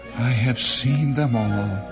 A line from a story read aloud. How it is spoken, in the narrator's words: sighed